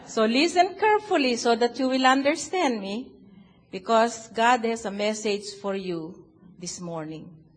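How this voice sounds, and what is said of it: Filipino accent. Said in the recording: “I'm a Filipino ... my accent is so wonderful. Can you hear it?”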